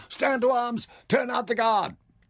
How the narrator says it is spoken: he shouted urgently

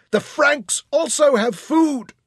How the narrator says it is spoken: screeched the woman in black

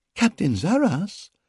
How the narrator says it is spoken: exclaimed with wide-eyed surprise

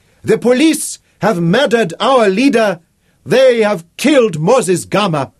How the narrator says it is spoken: he shouted in a strong, clear voice

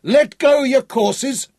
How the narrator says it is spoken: shouted

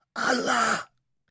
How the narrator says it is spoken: whispered

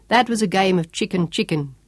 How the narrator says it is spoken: Sean chuckled

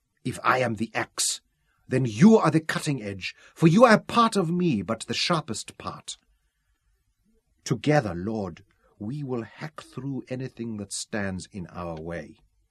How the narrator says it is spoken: answered fiercely

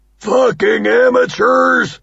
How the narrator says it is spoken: Doug bellows

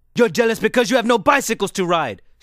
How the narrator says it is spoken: shouted Facito

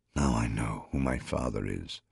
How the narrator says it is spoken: whispered, hearing the wonder of it in my own voice

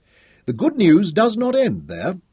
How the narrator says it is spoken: Anderson chuckled

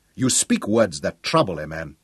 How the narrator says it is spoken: said sternly

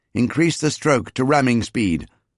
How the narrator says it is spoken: I raised my voice above the uproar to shout at Zaras

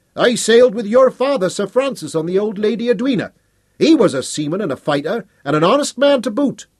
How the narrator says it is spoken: Another called out

